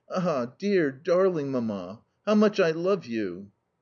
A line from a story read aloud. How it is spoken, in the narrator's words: to say with a sigh